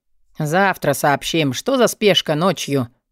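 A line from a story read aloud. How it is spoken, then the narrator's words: Muffled growl behind door. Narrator (Russian): прорычал гоблин за дверью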